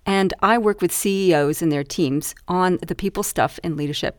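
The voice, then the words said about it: Mixed Canadian-Australian accent. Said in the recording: “I'm a Canadian Australian. That's the weird kind of accent I've told I've had.”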